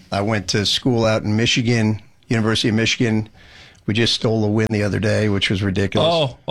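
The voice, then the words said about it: Strong New Jersey accent. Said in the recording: “crazy accent ... I'm from Jersey”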